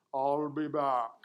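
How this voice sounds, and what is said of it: Arnold Schwarzenegger Terminator accent impression. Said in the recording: “with a little bit of an accent ... When Arnold in the first Terminator said, I'll be back”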